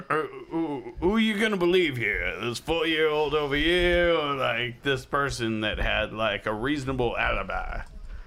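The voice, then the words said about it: Put-on character voice. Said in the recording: “Sorry about the character voice.”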